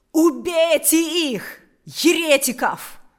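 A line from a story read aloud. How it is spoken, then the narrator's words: Shout. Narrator (Russian): крикнул Карп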